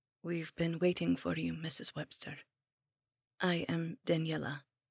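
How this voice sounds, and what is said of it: Strange, vaguely Eastern European accent. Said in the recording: “She spoke with a very strange and vaguely Eastern European accent.”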